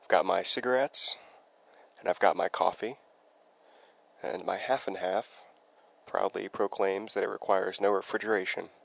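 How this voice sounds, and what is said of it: Sick-sounding, slightly strange voice. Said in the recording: “I've had some form of the flu for the past week ... my voice sounds a little bit strange.”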